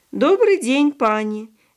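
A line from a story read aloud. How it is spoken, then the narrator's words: Cheerful. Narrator (Russian): весело ответил почтальон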